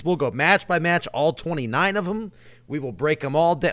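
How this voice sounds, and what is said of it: Hoarse, strained voice. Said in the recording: “Hopefully my voice is a little bit better by then”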